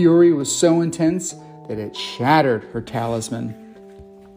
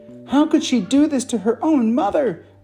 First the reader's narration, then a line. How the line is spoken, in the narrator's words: Ming exclaimed